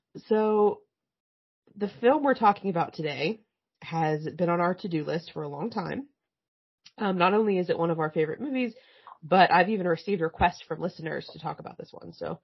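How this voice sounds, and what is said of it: Scratchy voice. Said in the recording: “I am 2 weeks out from having COVID, so if my voice is scratchy and I cough a lot, I really apologize.”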